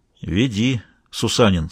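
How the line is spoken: Said quietly. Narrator (Russian): сказал Мазур тихонько

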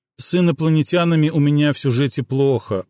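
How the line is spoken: Glum reply. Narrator (Russian): уныло отозвался Алекс

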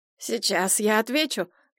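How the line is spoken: Nasal voice. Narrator (Russian): прогнусила Альбина

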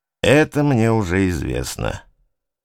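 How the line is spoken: Very gloomy. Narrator (Russian): говорю очень мрачно

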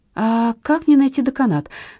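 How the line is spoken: Helpless voice. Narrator (Russian): спросила я самым беспомощным голосом

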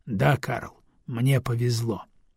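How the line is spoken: Calm wry reply. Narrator (Russian): Аксель криво усмехается и спокойно отвечает

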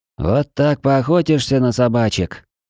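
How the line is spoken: Moaning. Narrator (Russian): простонала сумрачная

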